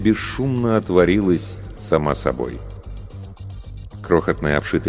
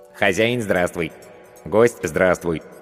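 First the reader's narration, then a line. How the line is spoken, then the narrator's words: Funny cartoonish voice. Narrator (Russian): произнесло оно смешным мультяшным голосом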